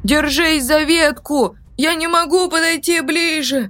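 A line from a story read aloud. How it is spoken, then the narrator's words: Shouted. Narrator (Russian): прокричал Даниэль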